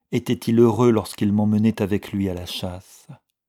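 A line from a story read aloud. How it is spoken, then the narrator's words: Sighing. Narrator (French): soupira-t-elle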